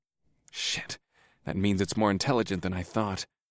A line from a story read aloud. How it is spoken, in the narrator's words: I muttered half to myself